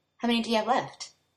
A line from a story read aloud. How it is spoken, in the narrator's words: Bradley groans